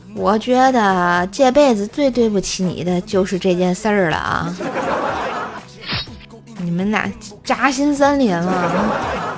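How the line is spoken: Serious, sighing. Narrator (Chinese): 我妈啊一脸严肃地看着我，叹了口气说道

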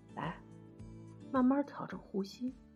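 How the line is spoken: Soft, pained. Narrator (Chinese): 一脸痛苦，我轻声说

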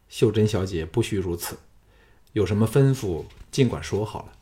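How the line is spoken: Calm, detached. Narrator (Chinese): 淡淡的说

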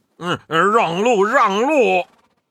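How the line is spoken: Calling out. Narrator (Chinese): 八戒叫道

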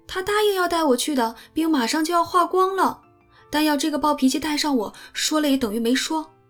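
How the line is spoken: Anxious cry. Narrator (Chinese): 艾米便急得叫起来

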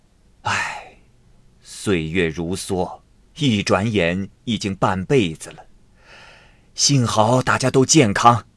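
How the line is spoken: Sighing. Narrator (Chinese): 齐安七叹了口气说

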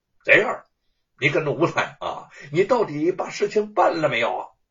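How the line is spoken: Shouting. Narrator (Chinese): 罗万金又对贼儿吼道

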